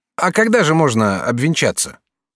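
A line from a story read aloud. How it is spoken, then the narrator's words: Plain. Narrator (Russian): спросил Жак Обри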